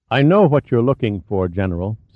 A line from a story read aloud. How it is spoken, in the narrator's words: said Rykov